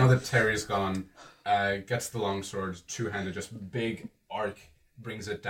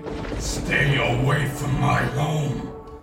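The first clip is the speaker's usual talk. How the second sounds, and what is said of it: Loud booming shout. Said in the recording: “just ends up shouting ... your voice just booms outwards”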